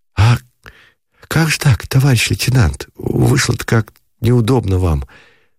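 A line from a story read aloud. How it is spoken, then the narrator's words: Hurried whisper. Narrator (Russian): заторопился за дверью шепот у Шатикова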